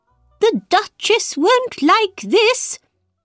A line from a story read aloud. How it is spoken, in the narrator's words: he cried